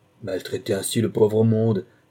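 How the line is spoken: Woman exclaiming. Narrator (French): s'écrie la femme

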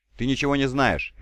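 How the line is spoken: Curt, sharp. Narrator (Russian): резко бросила

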